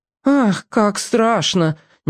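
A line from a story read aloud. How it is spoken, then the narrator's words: Uncertain. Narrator (Russian): неуверенно сказала Марина Егоровна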